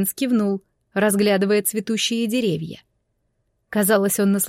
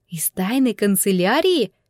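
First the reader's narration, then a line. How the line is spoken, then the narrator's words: Whispered question. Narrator (Russian): переспросила я шепотом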